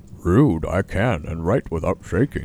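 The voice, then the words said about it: Polar bear character voice. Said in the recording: “polar bear voice”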